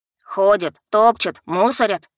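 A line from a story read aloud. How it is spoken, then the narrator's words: Men grumbling. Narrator (Russian): продолжали ворчать мужички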